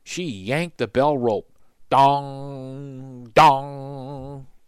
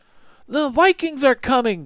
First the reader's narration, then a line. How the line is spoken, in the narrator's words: Jack shouted